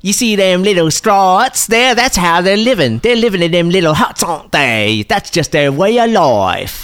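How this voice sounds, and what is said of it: Exaggerated Australian accent. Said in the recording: “Like, really Australian accent.”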